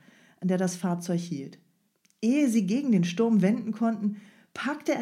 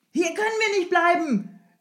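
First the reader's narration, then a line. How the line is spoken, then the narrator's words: Shouting to driver. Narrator (German): schrie Strogoff dem Jemschik zu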